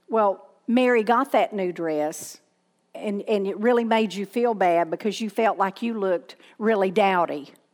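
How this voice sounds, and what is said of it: Southern American accent. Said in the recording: “Sometimes people can't understand my southern accent”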